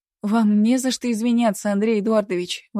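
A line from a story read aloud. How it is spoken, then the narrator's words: Exclaiming. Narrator (Russian): воскликнула я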